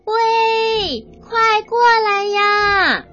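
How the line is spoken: Loud shout. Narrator (Chinese): 西里尔大声的喊

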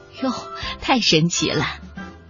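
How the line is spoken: Delighted amazement. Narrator (Chinese): 爸爸妈妈开心的不得了，他们会惊叹的说

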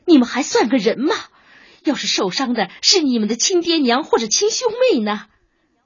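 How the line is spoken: Hysterical, angry, tearful. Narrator (Chinese): 他从来没有这样歇斯底里过，于是只好愤怒的噙着泪

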